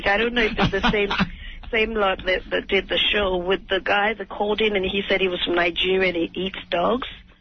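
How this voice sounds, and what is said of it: English accent. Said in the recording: “you're like an English broad ... I didn't pick up on that accent right away ... I love the English accent”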